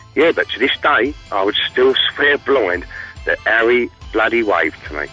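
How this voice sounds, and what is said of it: East End London accent. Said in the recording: “Nice little East End accent.”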